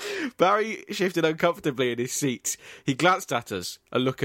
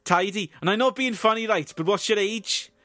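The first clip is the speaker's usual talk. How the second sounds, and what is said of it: Put-on Welsh accent. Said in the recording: “for the sake of the podcast, I'll be performing their dialogue in a Welsh accent.”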